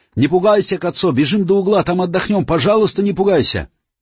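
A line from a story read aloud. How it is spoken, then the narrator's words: Shouting while running. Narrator (Russian): Муша, не переставая бежать, кричал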